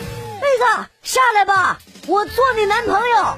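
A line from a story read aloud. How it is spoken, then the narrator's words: Loud young man shouting. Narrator (Chinese): 楼下有一个帅哥大声的喊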